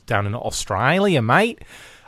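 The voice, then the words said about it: Put-on Australian accent, poorly done. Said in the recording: “Or Bosnia, or whatever the accent I just did was.”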